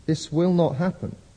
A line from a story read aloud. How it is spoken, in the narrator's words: the Lord said